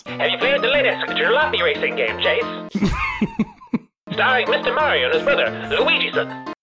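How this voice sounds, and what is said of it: Put-on transatlantic accent. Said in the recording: “things I could say in a transatlantic accent”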